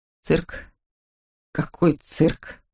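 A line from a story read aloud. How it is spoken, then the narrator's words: Hoarse rasp. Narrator (Russian): прохрипел Мефодий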